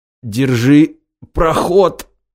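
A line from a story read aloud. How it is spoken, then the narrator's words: Strained, forced-out words. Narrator (Russian): выдавил из себя сталкер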